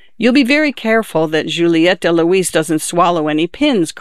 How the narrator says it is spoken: cried Lucina

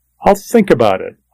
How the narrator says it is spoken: I said

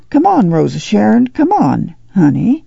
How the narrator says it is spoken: she said gently

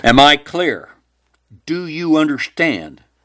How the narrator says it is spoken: He growled

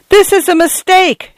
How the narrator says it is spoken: she yelled

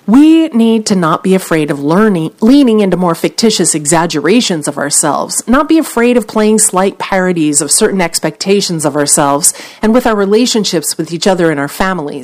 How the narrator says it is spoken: said McConaughey

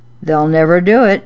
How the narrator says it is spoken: Daddy was chuckling to himself and saying under his breath

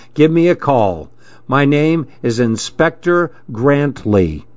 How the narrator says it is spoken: said firmly

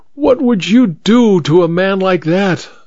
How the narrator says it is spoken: her eyes were blazing, cried

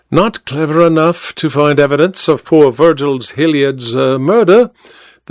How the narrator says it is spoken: the detective replied blandly

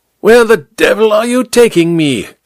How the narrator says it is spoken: King Kong leaned close to shout the words into Amberley's ear

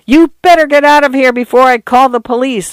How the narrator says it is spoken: Arthur yelled

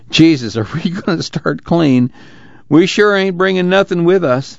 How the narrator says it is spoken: and chuckled a moment

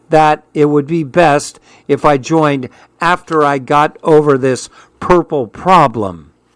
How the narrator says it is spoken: I said slowly

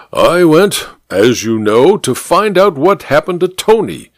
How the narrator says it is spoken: said the judge through gritted teeth

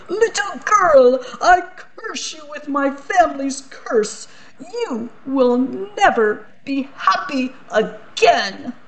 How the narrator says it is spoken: The Archduke shouted

